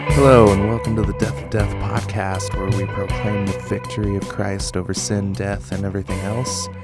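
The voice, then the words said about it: Congested, slightly funny-sounding voice. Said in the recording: “I'm still congested, so I probably sound a little funny... losing my voice”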